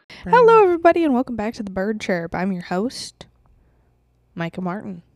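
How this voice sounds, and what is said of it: Deeper, congested voice. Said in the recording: “You sound different. ... I have a cold. I know, my voice is deeper.”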